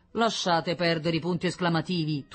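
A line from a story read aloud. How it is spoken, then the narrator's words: Thundering. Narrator (Italian): tuonò Diomede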